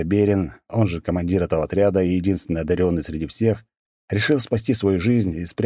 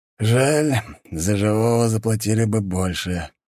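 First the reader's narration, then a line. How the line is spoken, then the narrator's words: Sighing. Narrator (Russian): вздохнул Доберин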